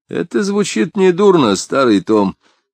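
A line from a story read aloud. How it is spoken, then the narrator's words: Low voice, laughing. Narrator (Russian): в полголоса сказал Непоседа, смеясь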